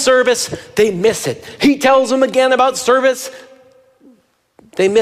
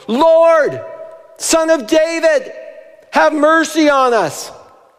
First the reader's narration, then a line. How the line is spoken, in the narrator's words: Two blind men … they shouted